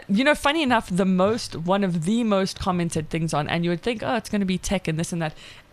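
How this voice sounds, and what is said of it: South African accent. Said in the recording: “my accent and my voice ... the South African accent”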